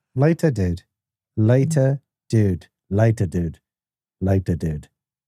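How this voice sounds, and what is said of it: Put-on British English accent. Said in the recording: “Do a later, dude, with a British accent... Well, that's not bad... the trick to the British accent is not to open your mouth”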